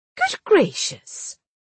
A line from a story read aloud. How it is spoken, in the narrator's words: Daisy exclaimed